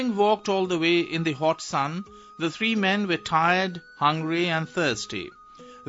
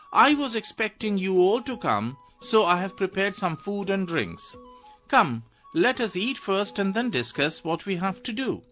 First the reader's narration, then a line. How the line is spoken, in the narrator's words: very sweetly exclaimed